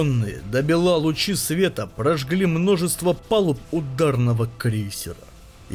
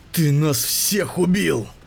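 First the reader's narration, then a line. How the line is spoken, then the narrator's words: Hissed. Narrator (Russian): прошипел Шароукин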